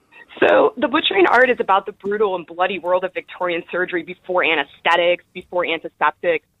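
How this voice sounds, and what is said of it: American Chicago accent. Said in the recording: “I am, yes. This Chicago accent. ... I can't get rid of this accent.”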